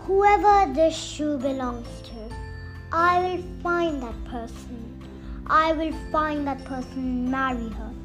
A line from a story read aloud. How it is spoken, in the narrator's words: he exclaimed